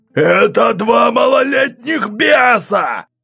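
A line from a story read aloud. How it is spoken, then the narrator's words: Yelling. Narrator (Russian): орал граф Белорецкий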